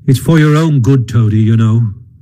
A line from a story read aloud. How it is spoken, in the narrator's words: said the rat kindly